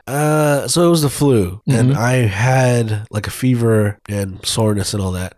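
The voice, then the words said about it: Congested, stuffy-nosed voice. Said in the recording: “We can kind of hear it in your voice, a bit congested there.”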